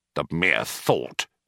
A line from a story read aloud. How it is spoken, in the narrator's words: growled Mr